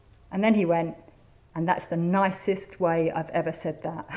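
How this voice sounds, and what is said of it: Usual voice. Nothing is said of it.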